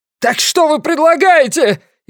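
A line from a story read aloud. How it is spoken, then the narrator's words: Hysterical shout. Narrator (Russian): истерично выкрикнул Ламли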